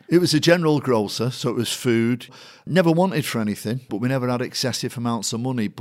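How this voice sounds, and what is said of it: Mancunian accent. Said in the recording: “I'm surprised they haven't got one. ... it's proper, it's Manc, isn't it? ... Manc and truly, accent”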